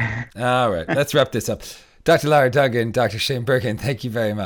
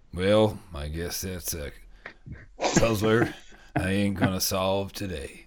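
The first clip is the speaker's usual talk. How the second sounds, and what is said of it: Put-on American cowboy accent. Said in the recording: “stereotypical American ... mostly Western dialect ... Cowboy talk ... That was good, wasn't it?”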